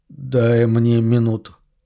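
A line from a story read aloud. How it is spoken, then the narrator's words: Unclear echoing voice. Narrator (Russian): просит Джереми неясным голосом, отдающимся эхом от кафеля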